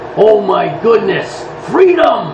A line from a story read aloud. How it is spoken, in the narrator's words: The driver is then heard growling